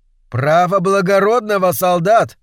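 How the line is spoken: Distant shout. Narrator (Russian): крикнул какой-то зритель из-за ограды

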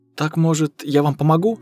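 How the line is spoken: Timid question. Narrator (Russian): робко спросила Кира

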